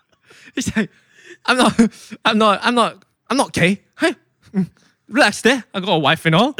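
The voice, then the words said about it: Imitates another person's voice, put-on accent. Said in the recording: “I don't think that's the accent he has ... the accent is top notch”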